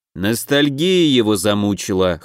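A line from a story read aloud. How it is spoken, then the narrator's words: Wry grunt. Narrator (Russian): хмыкнул Оут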